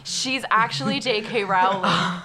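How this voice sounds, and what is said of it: Put-on British accent. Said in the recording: “Can you hear my British accent?”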